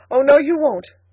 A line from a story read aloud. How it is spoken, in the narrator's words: cried the girl